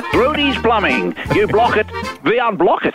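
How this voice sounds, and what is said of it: Funny Dutch-sounding character accent. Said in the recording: “He has a funny accent. ... My mum's from Holland and my dad's from the Netherlands. It's a beautiful accent, isn't it?”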